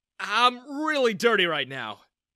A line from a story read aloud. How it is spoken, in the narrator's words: I exclaimed